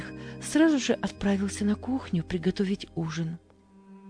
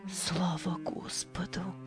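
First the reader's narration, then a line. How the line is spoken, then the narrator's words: Whisper, woman. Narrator (Russian): прошептала мать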